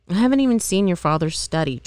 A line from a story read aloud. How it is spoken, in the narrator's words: Charles said